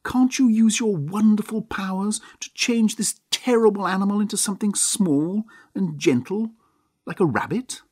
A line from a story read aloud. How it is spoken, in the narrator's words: cried his aunt